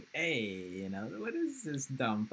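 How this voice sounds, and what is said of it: Raspy cartoon character voice. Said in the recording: “in a raspy voice”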